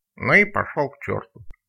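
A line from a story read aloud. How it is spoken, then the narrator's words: Grumble with loud sneeze. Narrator (Russian): буркнул Изя, громко чихнув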